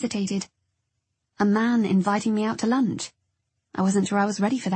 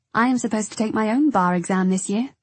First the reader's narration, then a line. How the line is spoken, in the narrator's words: I said